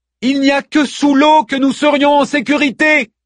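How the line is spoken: Screamed. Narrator (French): hurla-t-elle

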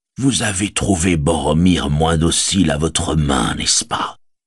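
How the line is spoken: Soft. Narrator (French): dit-il doucement

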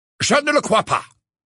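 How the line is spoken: Said brusquely. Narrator (French): dit Phineas d'un ton brusque

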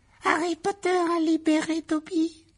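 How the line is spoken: Small high-pitched elf voice. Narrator (French): s'écria l'elfe d'une petite voix aiguë

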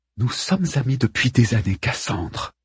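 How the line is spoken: Woman hissing. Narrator (French): siffle la femme d'Hector

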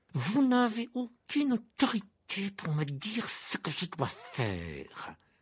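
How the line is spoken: Hissing protest. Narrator (French): protesta Rogue d'une voix sifflante

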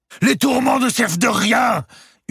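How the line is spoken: Old templar yelling. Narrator (French): hurlait l'ancien templier

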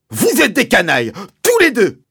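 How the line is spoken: Bellowed. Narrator (French): a vociféré Mr

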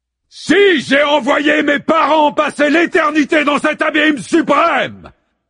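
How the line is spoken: Thundered. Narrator (French): tonne Zeus

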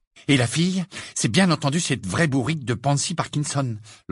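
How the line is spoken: Fierce. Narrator (French): lança Hermione d'un ton féroce

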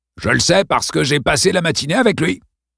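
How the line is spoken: Sneering laugh. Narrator (French): Il ricana

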